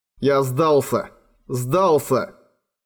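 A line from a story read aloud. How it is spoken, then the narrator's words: Furious self-loathing growl. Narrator (Russian): В ярости прорычал, полное отвращение к самому себе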